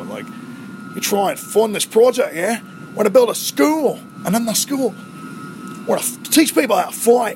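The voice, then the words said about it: Poor Australian accent drifting British. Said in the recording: “my Australian accent's atrocious ... I think I went like British right off the bat”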